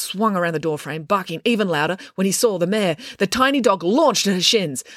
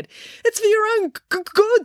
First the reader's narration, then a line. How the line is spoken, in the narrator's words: stammered Joe